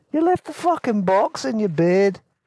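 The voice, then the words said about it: Put-on mixed Scottish accent. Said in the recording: “the two Scottish accents there. I'm doing my best. They were from Edinburgh, actually... Forgive me. I have a mixed Scottish accent.”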